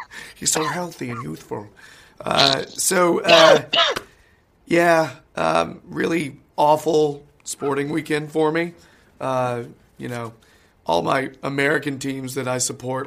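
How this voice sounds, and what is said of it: Sick-sounding voice. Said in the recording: “You can tell by my voice, still sick.”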